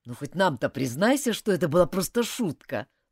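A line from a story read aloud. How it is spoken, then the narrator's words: Plain. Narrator (Russian): сказал Гарри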